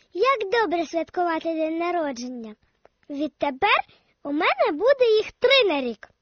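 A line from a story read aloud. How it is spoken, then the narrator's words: Cheerful, after laughing. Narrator (Ukrainian): Дік-Дік тільки весело розсміялася, потім сказала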